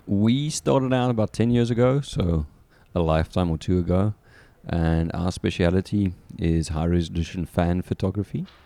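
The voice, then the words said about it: South African accent. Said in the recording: “as a South African, which will become very apparent with the accent”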